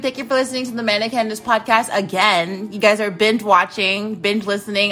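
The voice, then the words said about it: Slurred speech. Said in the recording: “I'm slurring.”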